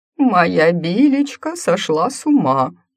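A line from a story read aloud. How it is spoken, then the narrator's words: Grief-stricken muffled wail. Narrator (Russian): горестно взвыл из-под стола ее супруг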